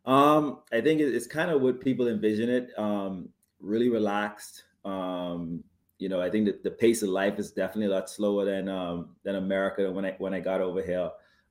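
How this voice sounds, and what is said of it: Slight Bahamian accent. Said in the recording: “a little bit of an accent, you're from the Bahamas”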